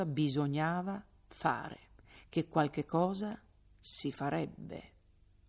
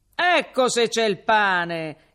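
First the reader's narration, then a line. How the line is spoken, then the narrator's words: Crowd shouting together. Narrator (Italian): gridarono 100 voci insieme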